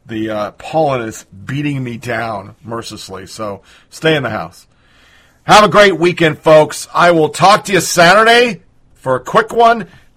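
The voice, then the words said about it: Tired, low-energy, unwell voice. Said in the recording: “I'm sucking buttermilk right now, as you can tell by my tone and lack of energy.”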